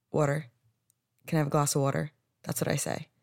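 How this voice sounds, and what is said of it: New Jersey accent on 'water'. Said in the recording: “I know I say water weird. ... it just comes out water”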